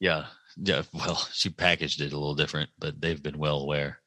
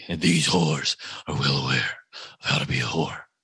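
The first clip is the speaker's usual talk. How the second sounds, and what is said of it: Sylvester Stallone impression, gravelly voice. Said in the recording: “my Sylvester Stallone impression ... I thought that was Bane or something at first ... I thought you got bronchitis again”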